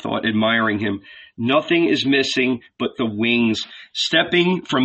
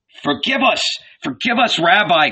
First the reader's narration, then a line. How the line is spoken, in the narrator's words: cried Peter, mortified